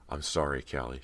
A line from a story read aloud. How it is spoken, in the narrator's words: she murmured softly